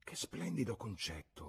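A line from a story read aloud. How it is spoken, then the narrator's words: Murmured. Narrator (Italian): mormorò Lucy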